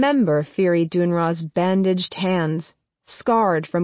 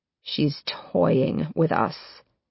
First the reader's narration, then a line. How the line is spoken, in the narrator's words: he says, his voice low and gravelly